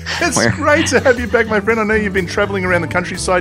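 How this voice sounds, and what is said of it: Australian accent. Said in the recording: “you sound very godly with your accent ... the Aussie accent's very godly”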